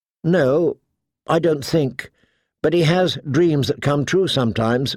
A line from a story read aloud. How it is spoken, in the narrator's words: Mira says